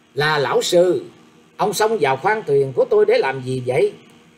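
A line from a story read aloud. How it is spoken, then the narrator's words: Icy scolding. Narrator (Vietnamese): sắc mặt cũng trở thành lạnh buốt như giá băng nạt rằng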